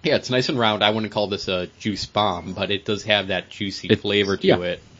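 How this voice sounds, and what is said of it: Congested voice from a cold. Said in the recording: “you can hear it in my recording that I have a cold”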